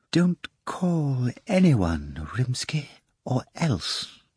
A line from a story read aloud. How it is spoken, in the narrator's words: A quiet female voice whispered from the receiver